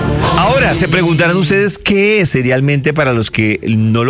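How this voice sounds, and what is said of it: Usual voice. Nothing is said of it.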